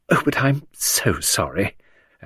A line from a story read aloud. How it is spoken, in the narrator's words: Lucy murmur